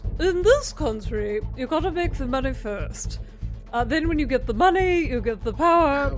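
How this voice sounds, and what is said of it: Posh royal English accent. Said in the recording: “I'm gonna try to read them like the Queen of England ... my Queen of England accent ... good accent ... very, very royal”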